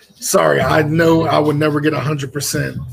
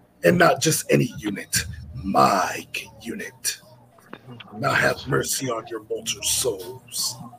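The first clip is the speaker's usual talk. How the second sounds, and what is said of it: Raspy imitated character voice. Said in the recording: “impersonation of Grey Wolf ... it's more out of like raspy”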